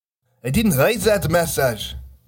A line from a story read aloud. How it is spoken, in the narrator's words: Bernard shouted